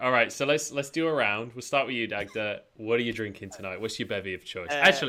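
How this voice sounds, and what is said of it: Usual voice. Nothing is said of it.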